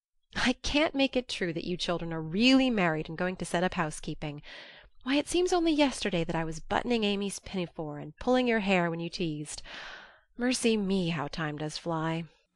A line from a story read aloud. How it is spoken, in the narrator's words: Joe said cheerfully, for she didn't want the coming home to be a sad one